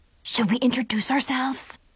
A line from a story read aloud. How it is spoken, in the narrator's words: Zoe whispered